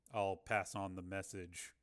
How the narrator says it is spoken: Rick said flatly

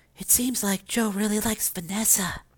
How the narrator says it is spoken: whispered

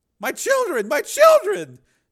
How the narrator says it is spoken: Donna screamed

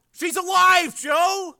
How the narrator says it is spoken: yelled out in relief

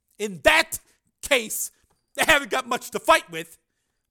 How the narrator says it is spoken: Borodini said

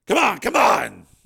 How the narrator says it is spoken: He yelled

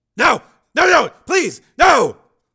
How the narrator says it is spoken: Throat-rending scream echoed

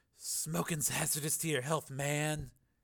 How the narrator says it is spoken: a soft whisper saying

